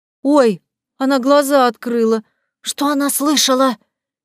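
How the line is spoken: Frightened voice from behind. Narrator (Russian): Испуганно прозвучал еще один голос где-то за моей головой

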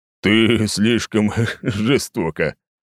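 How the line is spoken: Muffled, nearly laughing. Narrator (Russian): закрыв ладонью рот, едва ли не смеясь, ответил

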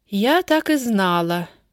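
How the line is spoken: Sigh. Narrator (Russian): вздохнула Вера Сергеевна

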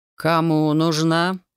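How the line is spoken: Insinuating question. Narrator (Russian): вкрадчиво спросил он

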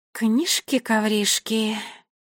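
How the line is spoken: Mutter. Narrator (Russian): пробормотала гвардиния Кникс

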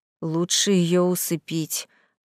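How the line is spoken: Worried muttering. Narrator (Russian): озабоченно забормотал названный жених

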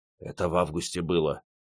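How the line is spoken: Soldier's quiet whisper. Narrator (Russian): тихо прошептал первый солдат

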